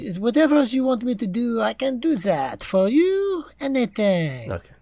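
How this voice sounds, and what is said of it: Put-on French accent. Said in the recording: “this French accent ... He could go back to his regular voice next week.”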